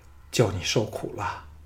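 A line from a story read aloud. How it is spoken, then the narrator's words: Apologetic sigh. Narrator (Chinese): 项少龙涌起歉意，叹道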